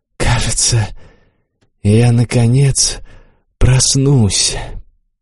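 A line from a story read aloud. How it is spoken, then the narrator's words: Barely audible mumble. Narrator (Russian): Корха пробормотал еле слышно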